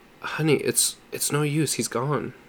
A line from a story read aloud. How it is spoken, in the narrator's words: Jim said softly